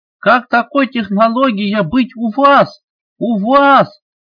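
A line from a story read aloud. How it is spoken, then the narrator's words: Angry hissing. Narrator (Russian): Стали злобно шипеть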